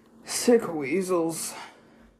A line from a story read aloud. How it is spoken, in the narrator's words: Ra muttered